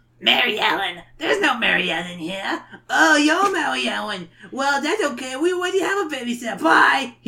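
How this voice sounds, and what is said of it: Raspy kid character voice. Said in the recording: “I'm making his voice worse. ... He sounds like a kid smoker. ... Little goblin boy”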